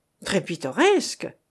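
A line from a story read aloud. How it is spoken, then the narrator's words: Exclaimed. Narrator (French): s'écria Rarogne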